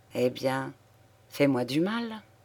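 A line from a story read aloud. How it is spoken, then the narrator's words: Murmured. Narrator (French): murmura-t-il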